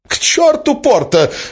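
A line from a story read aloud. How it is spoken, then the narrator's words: Exclaimed. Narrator (Russian): воскликнул Эразм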